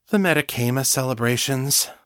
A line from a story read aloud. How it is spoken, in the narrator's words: Lisa sighed, sounding exasperated